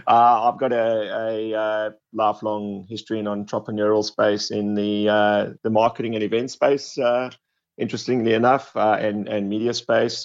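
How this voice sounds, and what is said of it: South African accent. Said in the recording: “from South Africa, as I'm sure you can pick up by the accent.”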